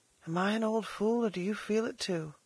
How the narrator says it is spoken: she half whispered

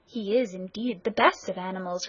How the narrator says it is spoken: replied Rat

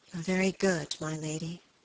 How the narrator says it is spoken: Phoebe answered with a sigh

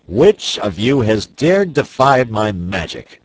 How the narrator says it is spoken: he shouted in a terrible voice

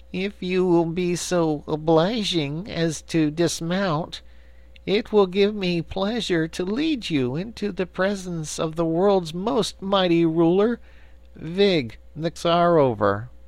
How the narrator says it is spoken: a skinny little man who bowed low and said in a sad voice

